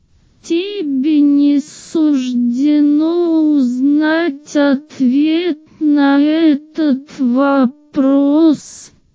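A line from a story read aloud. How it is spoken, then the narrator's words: Creaking voice. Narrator (Russian): проскрипел утес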